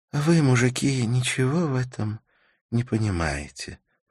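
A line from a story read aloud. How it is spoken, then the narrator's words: Sleepy voice. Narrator (Russian): произнесла Карла сонным голосом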